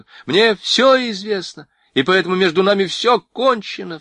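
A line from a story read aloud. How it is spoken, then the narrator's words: Sharp cry. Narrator (Russian): вскрикнула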